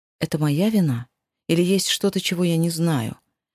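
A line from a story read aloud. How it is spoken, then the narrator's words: Soft, gentle man. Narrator (Russian): мягко уточнил мужчина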